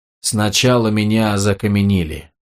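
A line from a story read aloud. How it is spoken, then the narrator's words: Plain. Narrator (Russian): сказал Ганелон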